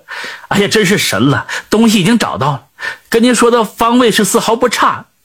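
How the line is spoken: Smiling. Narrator (Chinese): 脸上马上露出了笑容，口中就说

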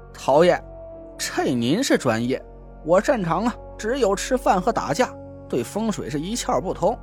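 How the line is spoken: Awkward laugh. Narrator (Chinese): 蒋亮讪笑了一声

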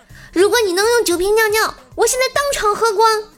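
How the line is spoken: Loud. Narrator (Chinese): 他大声地说

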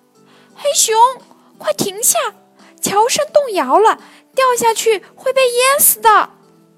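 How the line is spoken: Magpie shouting. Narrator (Chinese): 一只喜鹊也大声喊道

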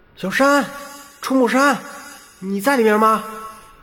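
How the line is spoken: Calling out. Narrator (Chinese): 站在门口喊了一声

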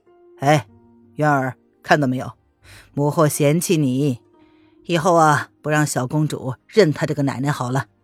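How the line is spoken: Pointed, insinuating tone. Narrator (Chinese): 宣太后意有所指的说

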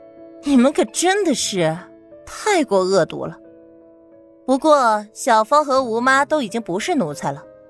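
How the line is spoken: Smiling. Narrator (Chinese): 唐宁笑了笑

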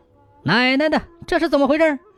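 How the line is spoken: Shouting. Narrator (Chinese): 喊

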